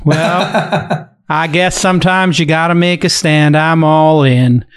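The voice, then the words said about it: Exaggerated Texas accent impression. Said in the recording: “my outrageous Bill Gurley ... his Texas accent”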